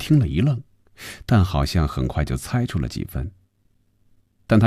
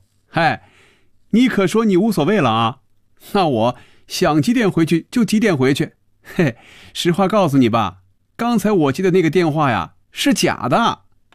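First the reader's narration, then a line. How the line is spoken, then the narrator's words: Laughing. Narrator (Chinese): 菲比笑出了声 说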